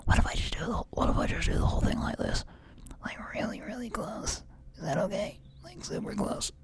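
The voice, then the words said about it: Whispering, sounds like old man. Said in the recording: “My whispering voice sounded like a sort of like an old man.”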